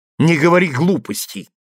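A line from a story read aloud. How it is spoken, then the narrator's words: Snapping. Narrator (Russian): огрызнулась Ева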